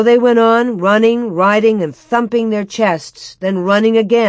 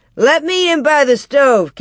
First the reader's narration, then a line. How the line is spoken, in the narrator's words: Cap shouted